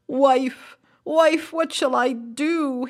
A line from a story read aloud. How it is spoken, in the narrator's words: he cried